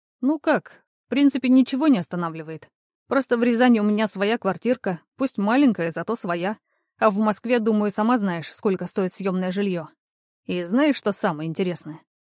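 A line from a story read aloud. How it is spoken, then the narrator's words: Strange snort. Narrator (Russian): Он как-то странно хмыкнул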